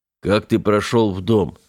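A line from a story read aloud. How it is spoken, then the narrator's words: Hoarse question. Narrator (Russian): хрипло спросил Семен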